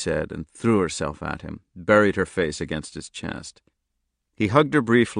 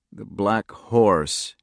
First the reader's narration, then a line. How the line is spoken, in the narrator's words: he said thickly